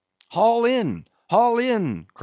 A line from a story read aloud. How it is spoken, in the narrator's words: cried Starbuck again